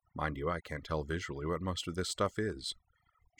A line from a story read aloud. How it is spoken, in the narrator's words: she muttered